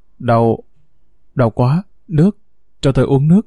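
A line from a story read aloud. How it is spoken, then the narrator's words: Pained labored moaning. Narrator (Vietnamese): Lâm đau đớn, khó nhọc, rên rỉ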